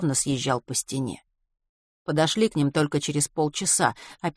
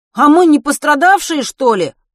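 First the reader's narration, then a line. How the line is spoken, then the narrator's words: Calling after. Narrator (Russian): крикнул ей вслед Матвей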